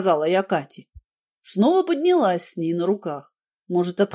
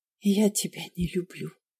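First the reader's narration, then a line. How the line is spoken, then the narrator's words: Secretive whisper. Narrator (Russian): сказала я шепотом, чтобы Ярослав не услышал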